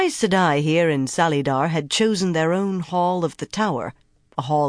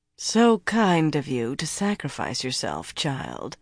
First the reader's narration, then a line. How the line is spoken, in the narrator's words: Lyanna said dryly